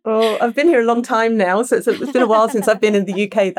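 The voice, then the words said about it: British accent. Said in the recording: “a beautiful British accent”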